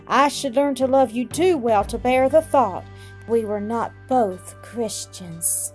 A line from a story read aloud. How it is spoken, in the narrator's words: groaned, covering her face